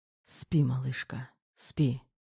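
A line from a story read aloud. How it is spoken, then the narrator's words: Sly whisper. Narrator (Russian): шепнул в ответ коварно улыбаясь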